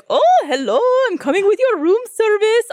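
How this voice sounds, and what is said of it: Jolly voice with unidentified accent. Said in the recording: “very jolly ... I don't know what accent it was, but he was so jolly”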